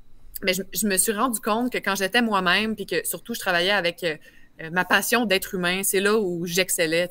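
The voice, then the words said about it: Strong Quebec French accent. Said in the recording (French): “J'ai un bon accent. Je viens de Québec.”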